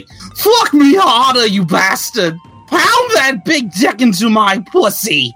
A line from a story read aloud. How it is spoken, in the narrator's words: Padme started yelling filthy things like